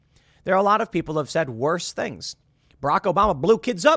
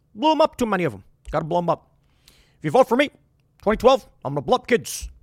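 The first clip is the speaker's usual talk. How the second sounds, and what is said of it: Deliberately bad imitation of another person. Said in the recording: “It's not a very good Obama impersonation on purpose. ... I'm trying to do a bad Obama.”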